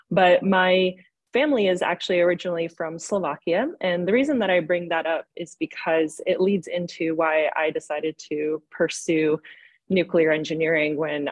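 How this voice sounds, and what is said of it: American accent. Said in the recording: “as you can probably tell by my accent, I'm also another American”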